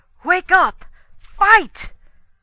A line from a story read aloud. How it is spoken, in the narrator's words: I cried